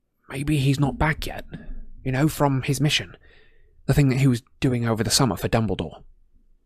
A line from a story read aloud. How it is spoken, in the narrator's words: Harry said very quietly, so that Neville, Parvati, and Lavender could not hear